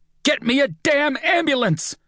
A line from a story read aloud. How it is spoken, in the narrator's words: I shout again